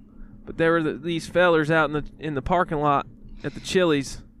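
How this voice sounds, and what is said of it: Slight put-on southern twang. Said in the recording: “I weren't supposed to be like a real redneck type ... this is just a slight little twang is all it is. It's not some kind of over the top voice”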